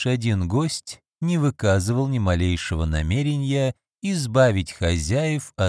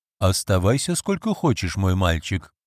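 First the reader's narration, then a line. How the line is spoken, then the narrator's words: Plain. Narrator (Russian): сказал сэр Майкл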